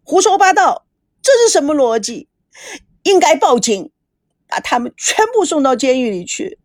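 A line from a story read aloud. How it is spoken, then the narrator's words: Shouting into phone. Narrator (Chinese): 孙娜对着手机喊着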